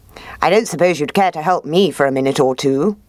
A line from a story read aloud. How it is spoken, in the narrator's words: asked the fox